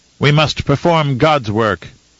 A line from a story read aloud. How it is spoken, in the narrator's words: Ejitika said